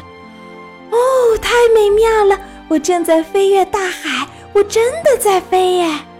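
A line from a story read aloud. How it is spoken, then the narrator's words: Loud excited shout. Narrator (Chinese): 达芬奇大声地喊着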